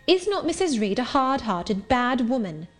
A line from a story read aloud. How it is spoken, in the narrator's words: I asked impatiently